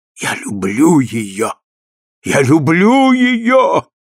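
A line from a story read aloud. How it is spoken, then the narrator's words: Exclaiming. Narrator (Russian): воскликнул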